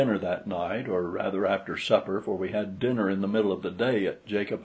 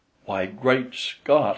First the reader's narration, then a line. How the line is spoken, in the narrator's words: exclaimed